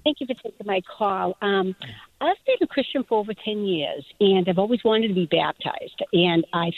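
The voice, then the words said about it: Boston accent. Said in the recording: “Actually, it's the Boston accent, even though I'm in New Hampshire.”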